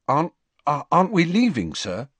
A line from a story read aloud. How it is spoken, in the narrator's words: Harry asked anxiously